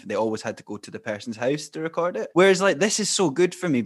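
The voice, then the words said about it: Scottish accent, Fife. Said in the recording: “Are you in Fife? ... The accent,”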